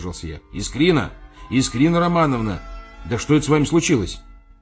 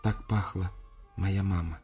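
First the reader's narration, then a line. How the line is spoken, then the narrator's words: Quiet shy smiling speech. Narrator (Russian): тихо сказала и застенчиво улыбнулась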